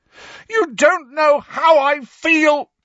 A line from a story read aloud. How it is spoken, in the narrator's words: Harry roared